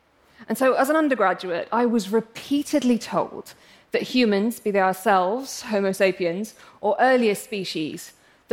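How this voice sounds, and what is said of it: English accent. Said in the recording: “I'm English, as you can probably tell from my accent,”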